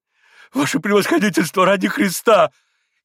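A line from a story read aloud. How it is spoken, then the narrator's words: Frightened pleading. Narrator (Russian): испуганно остановил его еще раз штабс-капитан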